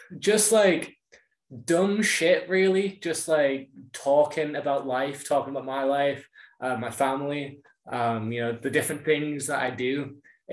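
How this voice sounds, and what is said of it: Northwest English accent. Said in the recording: “the northwest of the UK ... it sounded like almost Irish ... People often confuse my accent with either Irish or Scottish ... I'm English”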